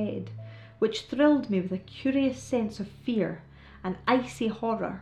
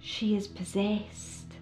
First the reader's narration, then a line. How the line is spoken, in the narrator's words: whispered my host on the other side of me